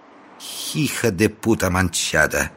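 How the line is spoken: Spiteful, through gritted teeth. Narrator (Russian): злобно процедила учительница

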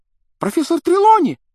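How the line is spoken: Sudden startling exclamation. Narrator (Russian): Вдруг воскликнула Лаванда так, что все вздрогнули

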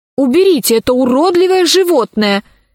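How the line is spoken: Shouting. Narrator (Russian): закричала Алиса

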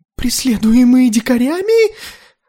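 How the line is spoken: Exclaiming. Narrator (Russian): воскликнул Тарталет

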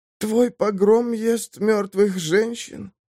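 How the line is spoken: Hoarse rasp. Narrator (Russian): прохрипела Самар

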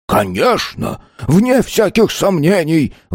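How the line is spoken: Exclaimed. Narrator (Russian): воскликнул Хенрик

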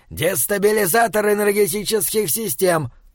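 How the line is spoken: Muffled grumble. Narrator (Russian): пробурчал он, практически с головой окунаясь в сумку

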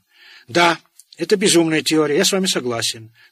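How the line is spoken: Fervent exclamation. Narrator (Russian): с жаром воскликнул он

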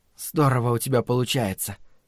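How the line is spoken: Hoarse rasp. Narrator (Russian): прохрипела Дэйна

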